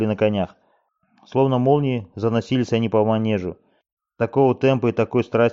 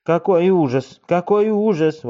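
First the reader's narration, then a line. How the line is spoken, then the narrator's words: Exclaimed. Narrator (Russian): воскликнула тетушка Бетти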